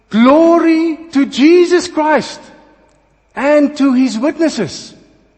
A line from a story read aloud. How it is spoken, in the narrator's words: With a loud voice, shouted